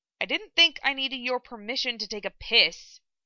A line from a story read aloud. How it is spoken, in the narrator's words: he grumbled